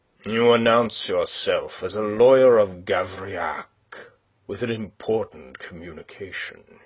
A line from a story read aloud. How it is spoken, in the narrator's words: he growled